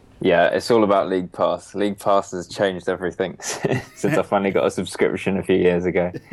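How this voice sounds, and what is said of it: London English accent. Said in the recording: “You are in London, so it's that's the accent.”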